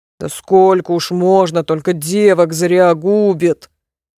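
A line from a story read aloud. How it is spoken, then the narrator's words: Grumbling. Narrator (Russian): заворчал первый голос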